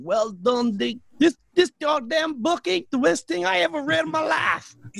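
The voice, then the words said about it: Put-on Southern accent. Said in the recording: “So she's Southern? ... Yeah, I did my best.”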